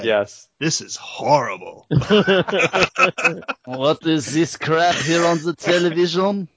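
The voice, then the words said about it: Poor put-on French accent. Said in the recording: “that's the best French accent I could come up with ... That was pretty bad.”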